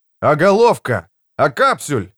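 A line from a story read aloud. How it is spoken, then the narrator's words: Shouting. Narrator (Russian): закричал Богард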